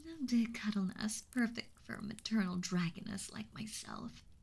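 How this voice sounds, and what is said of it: Sweet maternal character voice. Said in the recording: “I find it so natural to speak in that sweet tone of voice.”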